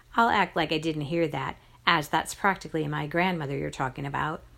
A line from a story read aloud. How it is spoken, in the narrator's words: I said